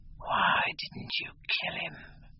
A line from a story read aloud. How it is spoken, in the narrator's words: she hissed out, putting her haggard face close to his